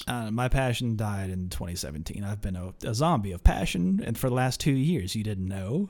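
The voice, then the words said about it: Deadpan radio voice. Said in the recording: “That explains the radio voice. ... Yeah, it's just this deadpan every week”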